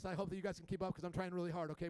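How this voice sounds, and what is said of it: Very fast speech. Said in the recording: “I am going about 100 words a minute right now. ... I'm talking so fast.”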